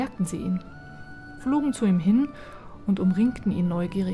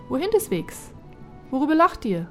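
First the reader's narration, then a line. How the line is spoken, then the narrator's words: Calling out. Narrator (German): rief er ihnen zu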